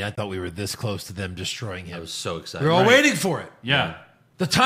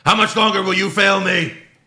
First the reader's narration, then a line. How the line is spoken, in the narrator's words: Ali yells at Retribution